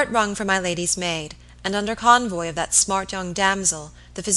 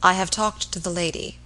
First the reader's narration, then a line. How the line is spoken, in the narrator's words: he said quietly